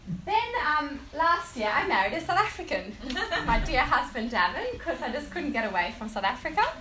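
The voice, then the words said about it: Slight South African accent. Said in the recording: “You might hear my tiny little accents all there”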